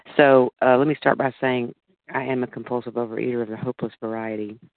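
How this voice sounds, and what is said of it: Groggy voice. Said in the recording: “my voice is groggy this morning”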